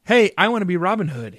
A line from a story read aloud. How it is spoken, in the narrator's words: he shouted